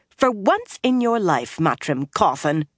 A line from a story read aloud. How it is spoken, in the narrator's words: she snapped